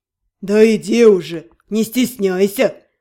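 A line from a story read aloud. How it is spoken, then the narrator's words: Snorting. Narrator (Russian): хмыкнул он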